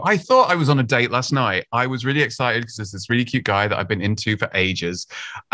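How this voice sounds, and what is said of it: British accent. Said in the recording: “I'm from the UK, as you can probably tell from my fantastic accent”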